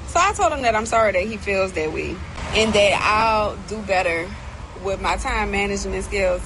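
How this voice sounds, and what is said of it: New Orleans accent. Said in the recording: “that New Orleans accent”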